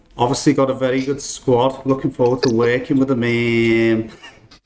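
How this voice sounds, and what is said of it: Imitates another person's voice. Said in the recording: “Don't normally have to ask ... twice to do an accent. ... I mean, you've nailed me.”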